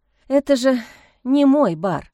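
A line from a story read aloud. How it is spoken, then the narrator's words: Sigh. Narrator (Russian): вздохнула я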